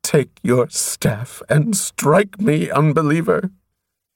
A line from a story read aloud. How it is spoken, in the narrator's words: she sobbed